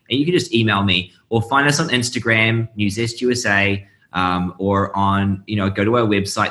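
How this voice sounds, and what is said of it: Noticeable foreign accent. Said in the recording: “because of my accent, people have no idea what I'm saying”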